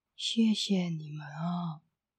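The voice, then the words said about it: Shy, quiet soft voice. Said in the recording (Chinese): “害羞的小声说”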